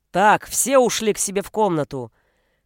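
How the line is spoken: Barked. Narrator (Russian): рявкнул Бруно

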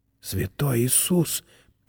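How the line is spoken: Whisper. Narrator (Russian): прошептал Чарли

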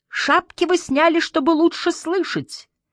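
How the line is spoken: Piercing voice. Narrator (Russian): сказал Сюй почти таким же пронзительным голосом, как человек с ружьем

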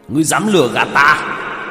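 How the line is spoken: Angry roar. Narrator (Vietnamese): Hắn nổi giận gầm lên một tiếng

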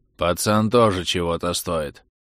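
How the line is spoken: Muffled. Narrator (Russian): глухо проговорил Мартынов

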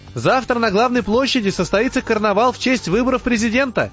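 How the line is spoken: Funny little man shouting. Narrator (Russian): прокричал нам в спину этот смешной человечек

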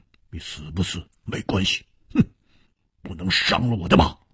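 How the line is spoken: Cold. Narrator (Chinese): 黑珍珠冷冷地说

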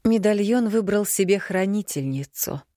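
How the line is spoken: Calm mother. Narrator (Russian): совершенно спокойно произнесла мама

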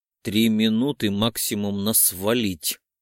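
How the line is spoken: Crisp, clipped delivery. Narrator (Russian): отчеканил

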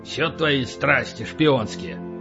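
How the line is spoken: Grumbling. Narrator (Russian): проворчал Полубой

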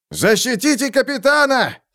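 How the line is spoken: Shouting. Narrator (Russian): крикнул сержант Лефлер

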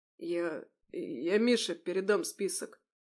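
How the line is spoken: Muttering. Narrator (Russian): пробормотал

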